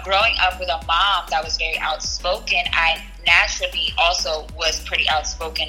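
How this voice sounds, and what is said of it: Bronx New York accent. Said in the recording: “everything always came down to my accent ... you sound so exotic ... everybody in the Bronx sounds like me”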